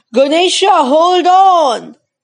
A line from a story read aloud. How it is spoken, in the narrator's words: Some of them shouted